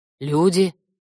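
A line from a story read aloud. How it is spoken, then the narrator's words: Creaky sigh. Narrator (Russian): Скрипуче вздохнул корняга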